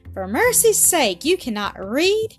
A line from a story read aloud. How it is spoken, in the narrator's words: cried the lady in her surprise